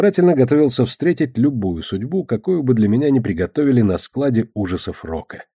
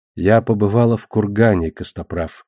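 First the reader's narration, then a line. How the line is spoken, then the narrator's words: Plain. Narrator (Russian): сказала она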